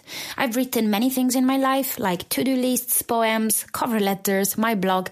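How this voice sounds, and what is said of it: Italian accent in English. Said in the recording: “you can probably tell by my accent that English is not my first language ... being Italian, which is where I'm from”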